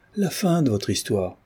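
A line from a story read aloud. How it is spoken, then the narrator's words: Two women exclaiming together. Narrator (French): s'écrièrent deux curieuses tout d'une voix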